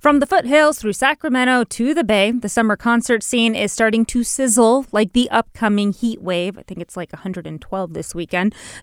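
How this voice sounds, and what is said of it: Chipper, lilting voice. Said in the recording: “such a chipper lilt ... in your voice”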